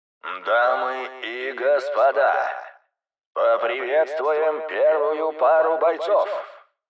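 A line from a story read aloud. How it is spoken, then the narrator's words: Loud roar. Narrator (Russian): проревел комментатор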